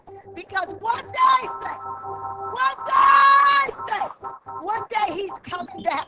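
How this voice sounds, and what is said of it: Shouting, fervent preaching. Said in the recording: “we're shouting”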